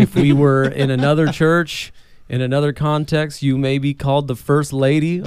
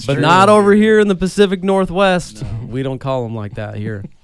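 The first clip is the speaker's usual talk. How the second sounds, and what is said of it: Slips into a southern accent. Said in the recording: “Why did you just pick up a southern accent like as you're talking about this?”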